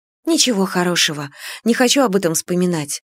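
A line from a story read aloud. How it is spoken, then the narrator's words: Quiet reply. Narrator (Russian): ответила я тихо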